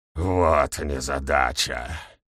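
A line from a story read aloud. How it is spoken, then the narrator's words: Grumble. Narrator (Russian): проворчал ГМ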